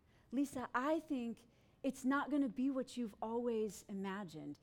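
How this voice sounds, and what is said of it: Sweet Southern South Carolina accent. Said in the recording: “in her so sweet, so southern, South Carolina accent”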